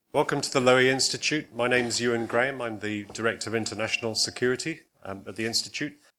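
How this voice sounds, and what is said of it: British-sounding accent. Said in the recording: “as you can tell from the accent, it's not entirely coincidence that I've been chosen to host ... Director of Chatham House in the UK”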